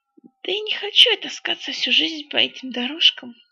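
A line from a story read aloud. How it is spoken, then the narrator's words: Mumbling under breath. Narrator (Russian): бормотал себе под нос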